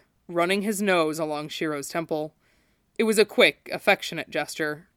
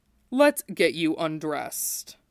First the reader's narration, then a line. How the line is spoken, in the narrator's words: he murmured, speaking through that rumble